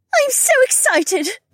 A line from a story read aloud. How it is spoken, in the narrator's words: Becca squealed